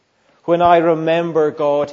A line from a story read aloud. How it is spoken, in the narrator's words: he says